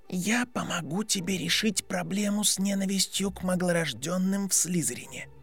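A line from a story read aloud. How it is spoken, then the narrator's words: Whispered. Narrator (Russian): шепотом закончил Драко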